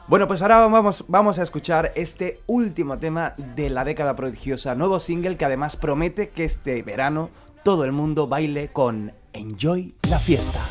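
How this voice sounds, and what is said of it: Radio announcer voice. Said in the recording (Spanish): “voz de locutor”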